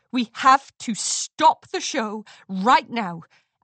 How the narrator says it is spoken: Amber Moon said firmly

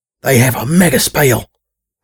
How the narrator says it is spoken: I whispered hurriedly to Lucky

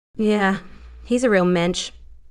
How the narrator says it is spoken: Lara said dryly

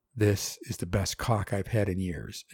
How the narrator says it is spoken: she said

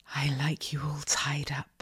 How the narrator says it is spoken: I whispered

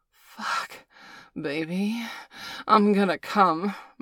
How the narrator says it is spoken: moaned Valerie

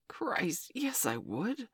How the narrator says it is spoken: Frank gasped

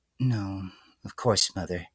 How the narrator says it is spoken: the filly murmured in response, almost entirely out of habit

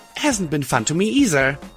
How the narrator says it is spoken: I gasped with a forced grin

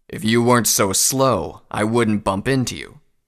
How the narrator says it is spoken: the stallion growled

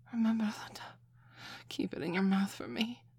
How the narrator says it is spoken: Lucy gasped

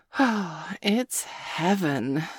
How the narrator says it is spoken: Sabrina said dreamily

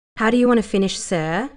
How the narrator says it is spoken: Lara asked him, her voice sultry

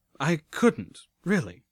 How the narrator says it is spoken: I stammered

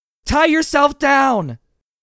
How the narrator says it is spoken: Seabiscuit screamed

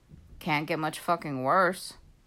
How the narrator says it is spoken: Seth muttered

